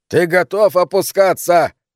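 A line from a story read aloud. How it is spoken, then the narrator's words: Yelling. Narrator (Russian): заорал он снова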